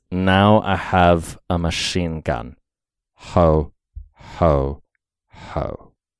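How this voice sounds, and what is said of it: Impression of a movie villain. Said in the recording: “I'm going to do my best Hans Gruber impression ... Alan Rickman ... Pretty good.”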